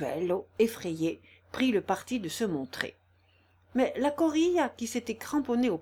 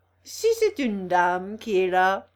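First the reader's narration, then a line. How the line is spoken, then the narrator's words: Laughing. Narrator (French): dit-il en riant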